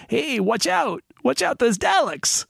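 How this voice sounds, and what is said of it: Put-on New York urchin accent. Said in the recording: “he's like doing a New York urchin accent there”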